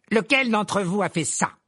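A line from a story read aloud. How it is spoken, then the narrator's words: Curt, sharp tone. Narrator (French): lança-t-il d'un ton sec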